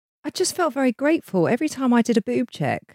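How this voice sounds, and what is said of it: Emotional, moved voice. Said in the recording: “I'm deeply moved by this week. ... as you can hear in my voice,”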